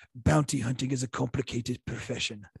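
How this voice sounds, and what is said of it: Impression of Werner Herzog. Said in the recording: “Great impression, ... I got a good Herzog.”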